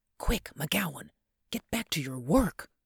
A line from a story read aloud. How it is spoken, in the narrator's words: I whispered